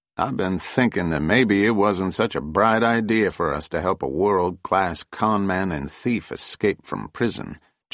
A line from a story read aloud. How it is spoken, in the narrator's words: Jessup said in his amiable Kentucky drawl